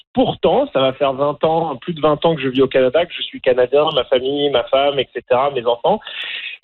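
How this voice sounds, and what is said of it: French accent from France. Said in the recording (French): “j'ai pas l'accent franco-canadien typique. J'ai un accent français de France”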